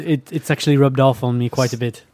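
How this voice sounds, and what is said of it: Put-on British accent. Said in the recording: “Somebody's got the British accent all of a sudden”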